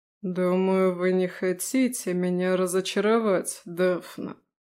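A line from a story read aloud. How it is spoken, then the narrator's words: Drawl. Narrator (Russian): протянул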